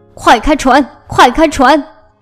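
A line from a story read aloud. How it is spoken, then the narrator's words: Clamoring shout. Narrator (Chinese): 大官嚷道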